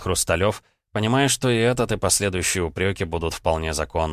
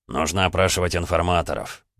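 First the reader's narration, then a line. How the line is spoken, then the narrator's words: Muttering. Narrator (Russian): пробурчал шеф корпуса жандармов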